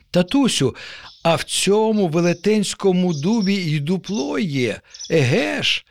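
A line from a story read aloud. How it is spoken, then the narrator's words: Joyful child's exclamation. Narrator (Ukrainian): радісно вигукнув нащадок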